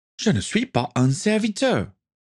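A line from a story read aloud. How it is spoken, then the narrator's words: Exclaiming. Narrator (French): s'écria Denise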